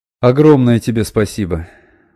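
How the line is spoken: Relieved sigh. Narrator (Russian): с облегчением вздохнул Сибил

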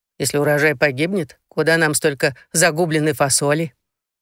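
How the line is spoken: Snorting. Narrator (Russian): Розара фыркнула

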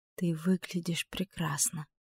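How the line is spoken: Soft young woman's voice. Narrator (Russian): тихо сказала девушка

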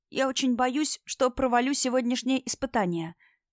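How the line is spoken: Anxious whisper. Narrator (Russian): шепотом делилась переживаниями она

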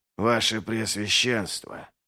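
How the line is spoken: Whispered, barely hiding agitation. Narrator (Russian): прошептал, с трудом скрывая смятение

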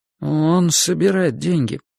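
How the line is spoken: Awkward mumble. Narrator (Russian): неловко промямлил я

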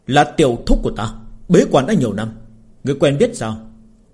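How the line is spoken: Young man, angry. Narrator (Vietnamese): Kiếm tu trẻ tuổi tức giận nói

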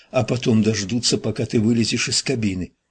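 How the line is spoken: Whisper. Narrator (Russian): прошептала Амелия

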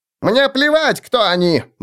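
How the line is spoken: Halfling shrieking. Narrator (Russian): взвизгнул полурослик

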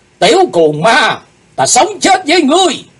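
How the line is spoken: Shouting in unison. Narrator (Vietnamese): bọn chúng cùng quát lên

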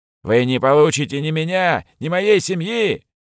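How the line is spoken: Hysterical shout. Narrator (Russian): истерично выкрикнув в темноту

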